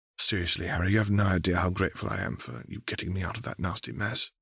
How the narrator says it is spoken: she whispered

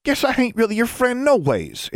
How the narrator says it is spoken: Innocence cried, barely controlling her tears

